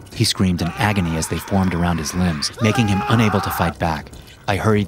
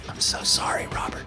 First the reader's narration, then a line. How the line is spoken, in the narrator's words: I whispered to myself